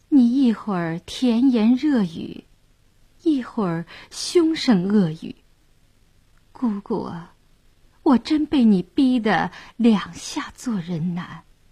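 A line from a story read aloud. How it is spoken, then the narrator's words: Stunned, soft sigh. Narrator (Chinese): 谭健儿倒愣了，轻叹一声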